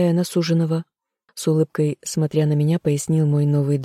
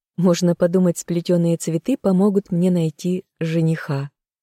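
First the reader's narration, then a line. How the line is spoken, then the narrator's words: Laughing. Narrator (Russian): хохотнула я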